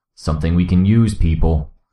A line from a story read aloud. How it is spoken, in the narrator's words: Gru growled